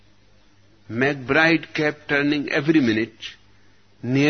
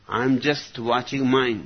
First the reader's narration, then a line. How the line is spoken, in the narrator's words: said McBride